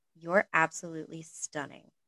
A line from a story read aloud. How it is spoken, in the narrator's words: Malfoy said quietly